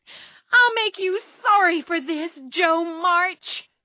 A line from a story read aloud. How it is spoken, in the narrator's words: Amy shouted